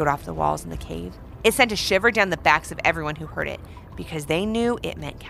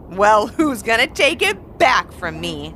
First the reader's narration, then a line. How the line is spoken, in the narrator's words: laughed Captain Salt